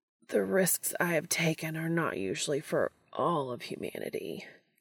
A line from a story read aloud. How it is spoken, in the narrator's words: Castiel groans